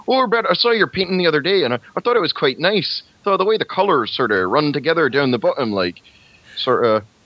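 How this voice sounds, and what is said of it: Imitated Canadian accent, drifting toward farmer. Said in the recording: “Canadian accent... she talked a lot like this... It's turning into a little farmer”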